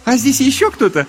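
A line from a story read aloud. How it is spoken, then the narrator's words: Giggling. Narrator (Russian): хихикнула Магдалена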